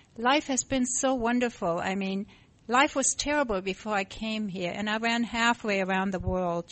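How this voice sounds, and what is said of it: Non-native foreign accent. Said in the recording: “You can probably tell by my accent that I wasn't born here.”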